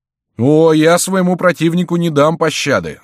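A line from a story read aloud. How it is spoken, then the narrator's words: Shouted. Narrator (Russian): закричал Депернон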